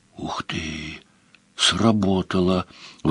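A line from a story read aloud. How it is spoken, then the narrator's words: Admiring whisper from behind. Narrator (Russian): восхищенно прошептал за спиной Паколет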